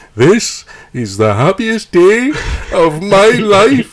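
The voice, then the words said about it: Attempted Welsh accent. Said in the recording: “I can't really do a Welsh accent properly ... That's quite good ... actually.”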